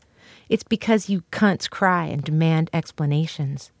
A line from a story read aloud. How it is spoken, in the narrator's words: they said